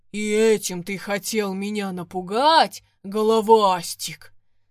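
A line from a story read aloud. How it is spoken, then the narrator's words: Deep bass after laughing. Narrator (Russian): отсмеявшись, пробасил водяной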